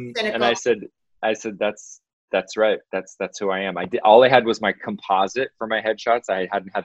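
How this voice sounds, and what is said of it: Usual voice. Nothing is said of it.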